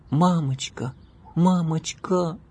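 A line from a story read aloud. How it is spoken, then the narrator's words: Pleading girl. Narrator (Russian): умоляющим тоном произнесла девочка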